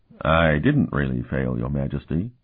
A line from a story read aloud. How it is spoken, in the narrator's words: Martell replied calmly